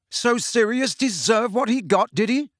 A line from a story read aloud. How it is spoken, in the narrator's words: Harry yelled